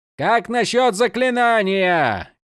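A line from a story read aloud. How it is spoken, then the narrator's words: Shouting. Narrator (Russian): кричал Малфурион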